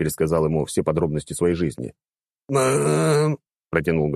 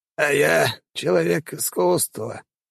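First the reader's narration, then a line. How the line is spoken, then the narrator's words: Sad sigh. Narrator (Russian): грустно вздохнул Монте-Шарль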